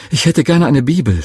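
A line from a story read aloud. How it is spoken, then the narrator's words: Excited stammering. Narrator (German): stotterte ich ganz aufgeregt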